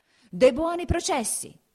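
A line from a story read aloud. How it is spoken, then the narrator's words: Shouting. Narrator (Italian): gridava il podestà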